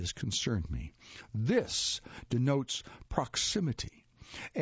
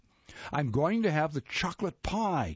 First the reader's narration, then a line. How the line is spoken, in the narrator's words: Karen hollered over the tempest